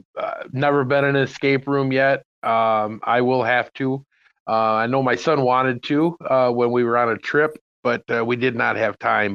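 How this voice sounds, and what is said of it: Canadian-sounding North American accent. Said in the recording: “I'm trying to figure out what part of Canada you're from based on your accent.”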